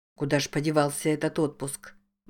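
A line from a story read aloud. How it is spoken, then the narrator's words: Muttering. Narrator (Russian): бормотал Джейк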